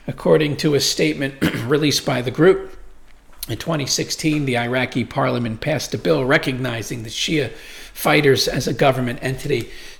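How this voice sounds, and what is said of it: Hoarse, strained voice. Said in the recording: “I'm losing my voice. I think maybe the air's dry down here”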